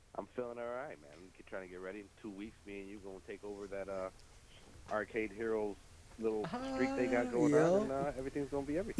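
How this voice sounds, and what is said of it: Sick, messed-up voice. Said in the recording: “I'm sick. My voice is all messed up.”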